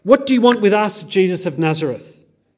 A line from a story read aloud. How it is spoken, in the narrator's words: frantically